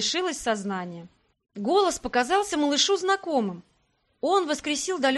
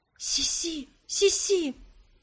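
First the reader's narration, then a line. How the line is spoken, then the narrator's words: Child's whisper. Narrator (Russian): прошептал малыш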